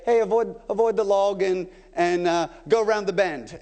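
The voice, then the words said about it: Put-on British accent. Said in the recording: “that was a British accent, not a New Zealand accent”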